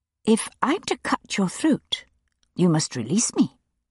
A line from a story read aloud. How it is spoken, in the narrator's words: said calmly